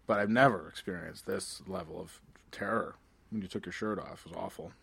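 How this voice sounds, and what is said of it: Performs a character voice. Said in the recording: “Should I have impersonated the prostitute a little bit better? ... That was you sold it.”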